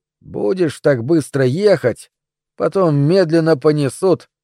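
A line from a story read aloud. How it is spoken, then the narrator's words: Grumbling. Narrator (Russian): проворчал сквозь дым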